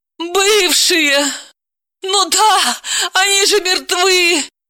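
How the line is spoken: Wailing. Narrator (Russian): взвыла Далила

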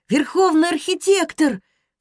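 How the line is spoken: Sudden exclamation. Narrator (Russian): вскрикнул Анис

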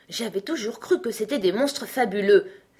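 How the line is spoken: Unicorn exclaiming. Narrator (French): s'exclama la licorne

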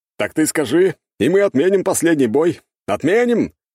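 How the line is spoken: Loud. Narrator (Russian): громко кидает

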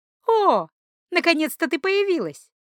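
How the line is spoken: Joyful greeting. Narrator (Russian): радостно поприветствовала Маша

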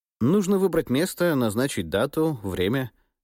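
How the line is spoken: Completely calm. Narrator (Russian): сказал я, совершенно спокойно

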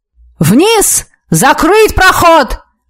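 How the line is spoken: Yelling from tower. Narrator (Russian): заорал сотник на башне

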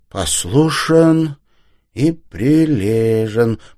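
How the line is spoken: Sing-song repetition. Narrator (Russian): повторил он нараспев

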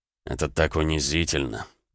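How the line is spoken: Muttered. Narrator (Russian): пробормотал Роман

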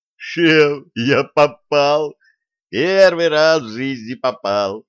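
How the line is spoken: Joyful yell. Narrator (Russian): радостно завопил он

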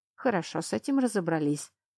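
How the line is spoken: Muttered. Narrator (Russian): пробормотал лорд Фингар

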